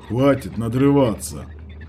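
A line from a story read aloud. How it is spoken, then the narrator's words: Grumbling. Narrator (Russian): Проворчал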